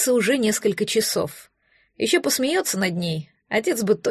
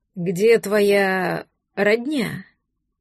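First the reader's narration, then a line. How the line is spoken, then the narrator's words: Hoarse voice. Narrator (Russian): голос тоже хриплый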